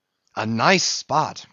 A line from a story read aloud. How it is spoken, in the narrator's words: cried Flask